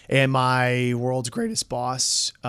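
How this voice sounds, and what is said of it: Voice cracks mid-sentence. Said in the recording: “why did my voice crack? ... Are you 14 again?”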